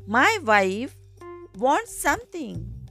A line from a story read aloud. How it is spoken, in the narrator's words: says the fisherman